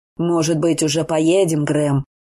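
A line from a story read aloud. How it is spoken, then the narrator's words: Irritated question. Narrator (Russian): раздраженно спросил Лэнгли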